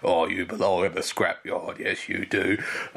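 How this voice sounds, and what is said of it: Cockney East End lorry voice. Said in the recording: “With the very, like, 1800s Cockney accent... this very working class, almost East End London voice there... That was awful.”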